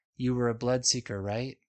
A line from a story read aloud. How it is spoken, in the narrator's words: Owena asks in that too calm voice